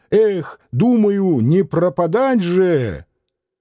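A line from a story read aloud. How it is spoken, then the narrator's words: Bold, daring shout. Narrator (Russian): удалым голосом крикнул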